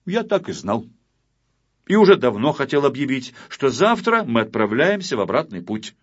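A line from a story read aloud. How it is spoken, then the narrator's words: Loud. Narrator (Russian): громко сказал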